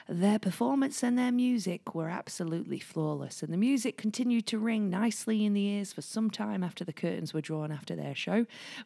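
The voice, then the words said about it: Put-on Northern English accent. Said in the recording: “I did a Northern English accent there instead of a Denmark accent”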